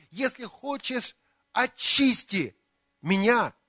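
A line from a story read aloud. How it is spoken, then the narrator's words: Pleading. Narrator (Russian): взмолился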